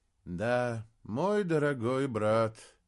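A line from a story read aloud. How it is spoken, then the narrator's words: Sad, smiling. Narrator (Russian): печально улыбнулся Леобардис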